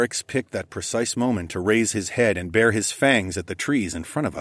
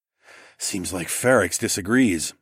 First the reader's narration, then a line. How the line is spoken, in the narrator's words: I muttered